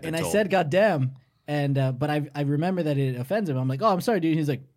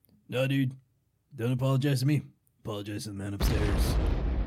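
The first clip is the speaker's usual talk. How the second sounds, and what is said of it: Imitates another person's voice. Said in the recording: “That's a great impression of him.”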